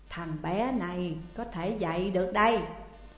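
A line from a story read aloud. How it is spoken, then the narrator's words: Smiling old man. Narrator (Vietnamese): Ông lão mỉm cười rồi nói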